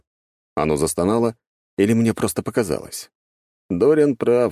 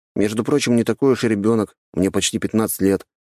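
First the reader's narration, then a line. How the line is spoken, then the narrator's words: Plain. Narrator (Russian): сказал я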